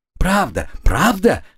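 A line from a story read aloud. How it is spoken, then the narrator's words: Shrill squeal. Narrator (Russian): завизжала она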